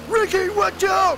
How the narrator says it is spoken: shouts Tony

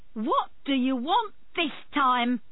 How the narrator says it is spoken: shouted

